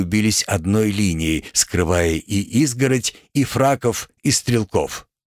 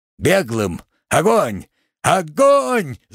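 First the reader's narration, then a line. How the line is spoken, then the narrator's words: Yelling. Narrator (Russian): заорал Дубин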